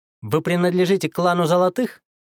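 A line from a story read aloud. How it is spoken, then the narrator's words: Sarcastic remark. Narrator (Russian): язвительно проронил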